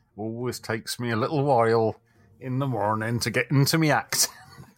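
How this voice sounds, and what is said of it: Put-on English-sounding accent. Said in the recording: “This is an accent you're doing? ... It all sounds very English to me.”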